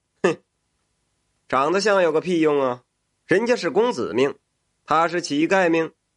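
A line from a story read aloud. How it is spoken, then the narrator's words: Sarcastic. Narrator (Chinese): 这赊粥的也听见了，他讽刺道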